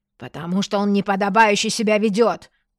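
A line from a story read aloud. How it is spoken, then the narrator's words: Shouting. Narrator (Russian): заорал он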